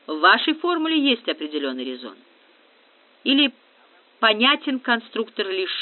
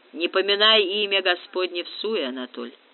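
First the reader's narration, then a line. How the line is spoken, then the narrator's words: Snort, nearly accentless Russian. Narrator (Russian): хмыкнул Губерт, говоривший на русском практически без акцента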